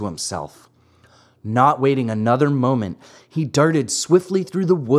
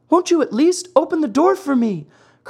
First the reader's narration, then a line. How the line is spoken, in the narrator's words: cried Pinocchio in a beseeching voice